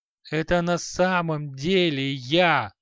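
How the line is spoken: Vicious wheeze. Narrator (Russian): злобно прохрипел халай

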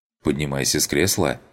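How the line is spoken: Plain. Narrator (Russian): ответил

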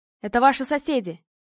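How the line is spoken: Shouting. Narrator (Russian): прокричал Никита

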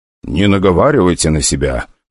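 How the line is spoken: Softly smiling. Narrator (Russian): произнес, мягко улыбаясь

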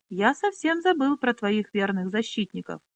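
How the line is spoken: Composed, dry. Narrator (Russian): взяв себя в руки, сухо произнес он

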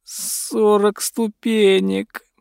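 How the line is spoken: Groan. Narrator (Russian): простонал он

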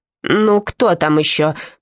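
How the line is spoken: Grumbling. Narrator (Russian): проворчала

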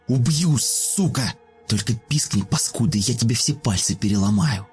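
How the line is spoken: Menacing whisper in ear. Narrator (Russian): Угрожающе прошептала Алина сопернице на ухо

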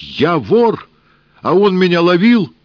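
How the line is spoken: Startled shout. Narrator (Russian): От неожиданности Сенька крикнул

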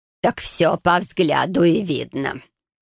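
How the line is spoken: She-bear snorting. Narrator (Russian): хмыкнула медведица

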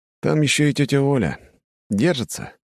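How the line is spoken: Sighing. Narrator (Russian): вздохнул я

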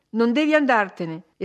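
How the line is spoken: Vigorous female exclamation. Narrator (Italian): esclamò lei con vigore

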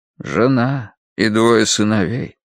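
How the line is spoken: Weary. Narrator (Russian): устало проговорил Рош

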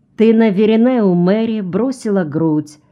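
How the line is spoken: Smiling, laughing loudly. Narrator (Russian): широко улыбнулась и громко засмеялась

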